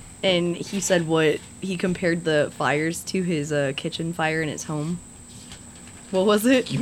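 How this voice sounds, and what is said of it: Usual voice. Nothing is said of it.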